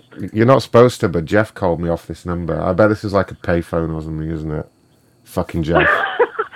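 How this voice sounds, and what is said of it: Southern English regional accent. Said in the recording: “I love your accent ... it's your accent ... You sound like you're from the South ... Like Cornwall”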